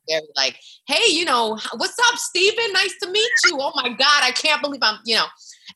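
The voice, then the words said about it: Heavy New York accent. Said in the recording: “I had a very heavy New York accent.”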